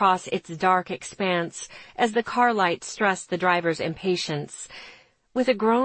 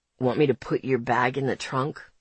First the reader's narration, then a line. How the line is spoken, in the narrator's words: he asks, his voice still rusty with sleep